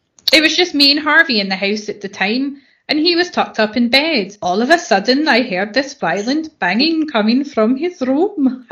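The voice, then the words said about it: Put-on accent, somewhat South Asian. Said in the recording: “That's my temperamental accent. ... She went a little bit Bangladeshi at the end there.”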